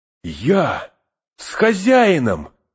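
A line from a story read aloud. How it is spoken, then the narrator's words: Eager exclamation. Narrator (Russian): воскликнул, подскочив, как собака, которую позвали гулять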